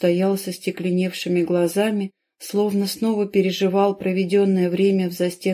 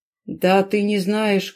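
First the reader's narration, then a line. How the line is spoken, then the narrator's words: Dull, muffled. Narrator (Russian): глухо уронил Хортон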